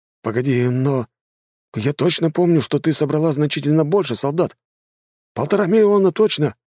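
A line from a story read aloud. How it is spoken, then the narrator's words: Young man exclaiming. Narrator (Russian): воскликнул паренек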